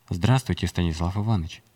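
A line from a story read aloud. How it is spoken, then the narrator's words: Plain, hologram voice. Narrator (Russian): сказала голограмма Искина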